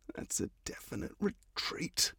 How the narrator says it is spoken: mutters

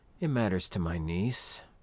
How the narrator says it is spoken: he replied quietly, like it was a secret or a confession

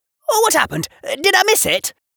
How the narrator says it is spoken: breathing hard

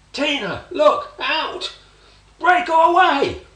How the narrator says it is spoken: He shouted

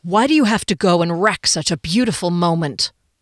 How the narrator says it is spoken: His tone stabbed me through my heart

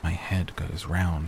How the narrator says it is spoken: said

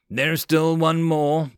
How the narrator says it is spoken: Blue Thunder growled, his right wing barely able to move

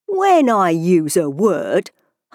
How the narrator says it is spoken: Humpty Dumpty said in a rather scornful tone

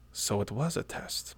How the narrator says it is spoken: muttered Hrolfr, satisfied

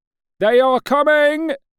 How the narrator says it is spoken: bawled a policeman

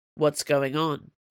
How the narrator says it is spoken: Brennan asked

